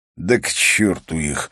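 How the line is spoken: Furious mutter. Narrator (Russian): пробормотал он в ярости

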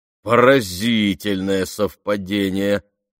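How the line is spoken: Drawling. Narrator (Russian): протянул Джереми

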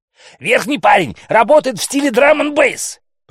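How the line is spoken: Shouted. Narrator (Russian): прокричала Макласки

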